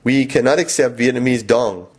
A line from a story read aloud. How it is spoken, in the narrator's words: she said